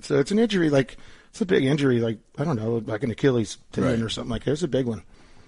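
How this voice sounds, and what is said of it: Slightly raspy voice. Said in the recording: “you can still hear it in my voice ... It's a little bit raspy.”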